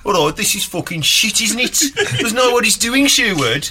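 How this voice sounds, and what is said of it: Attempted Brummie accent, Spurs fan. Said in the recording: “proper Brummie Spurs fans ... I can't do a Brummie accent”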